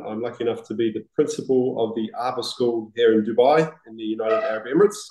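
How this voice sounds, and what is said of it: New Zealand accent. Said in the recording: “I can definitely pick up the accent from ... because I'm a wannabe Kiwi”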